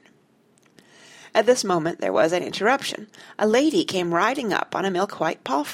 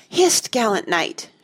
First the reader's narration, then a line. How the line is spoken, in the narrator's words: she cried